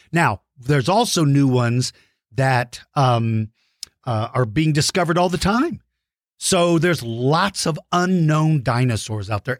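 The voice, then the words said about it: Rough, hoarse voice. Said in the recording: “as you can tell from my voice is kind of rough because I've been doing so many virtual lessons”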